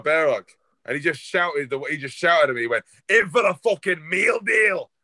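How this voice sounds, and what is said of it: Bad put-on Scottish accent. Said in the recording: “can you say that without doing a really bad Scottish accent?”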